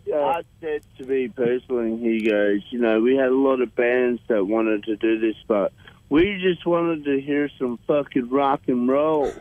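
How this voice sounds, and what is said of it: Imitates another person's voice. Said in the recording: “Sounded like Max as well. ... that's a good impression.”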